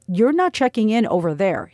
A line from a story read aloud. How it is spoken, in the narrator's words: said firmly